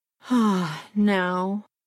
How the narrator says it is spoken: he said with a sigh of content

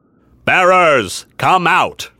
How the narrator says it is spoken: He had a deep, booming voice that seemed intended to reach the entire army

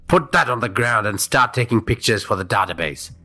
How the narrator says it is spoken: he barked at Hadi

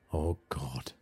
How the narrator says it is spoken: Seema said softly

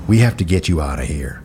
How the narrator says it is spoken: one guard whispered

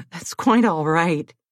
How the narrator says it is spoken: he said with a chuckle

